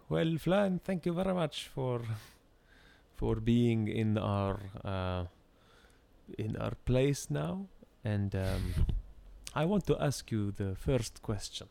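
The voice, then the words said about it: Put-on Arabic accent. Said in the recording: “I can't do a non-nuanced Arabic accent. A nuanced one.”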